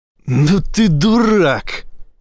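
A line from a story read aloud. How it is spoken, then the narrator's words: Laughing loudly. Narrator (Russian): расхохотался Эссекс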